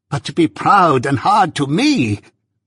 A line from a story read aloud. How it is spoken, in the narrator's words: Miss Havisham quite shrieked